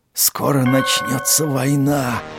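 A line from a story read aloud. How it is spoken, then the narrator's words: Hissing whisper. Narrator (Russian): Свистящим шепотом ответил шпион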